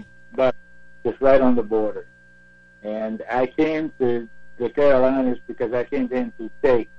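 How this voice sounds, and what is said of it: Non-local accent. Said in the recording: “I can tell by your accent you probably weren't born in Spartanburg”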